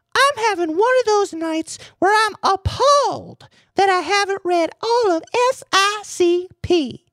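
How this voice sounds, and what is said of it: Higher-pitched voice imitating another person. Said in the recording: “who will now be played by me, but in a higher voice.”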